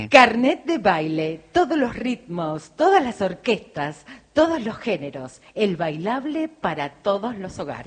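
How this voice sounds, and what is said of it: Radio announcer voice. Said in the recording (Spanish): “hacémelo con voz de locutora ... Véndemelo, véndemelo.”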